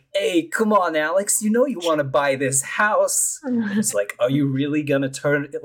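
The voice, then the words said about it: Put-on New York accent. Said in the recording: “the most like New York accent.”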